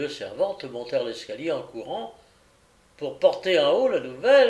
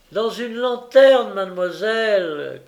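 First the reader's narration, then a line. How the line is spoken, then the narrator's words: Shouting, hand cupped. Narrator (French): cria Brightles en mettant une main près de sa bouche pour donner plus de portée à sa voix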